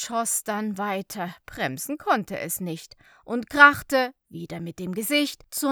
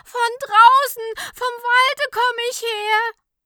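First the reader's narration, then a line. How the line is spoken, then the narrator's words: Screaming. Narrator (German): schrie es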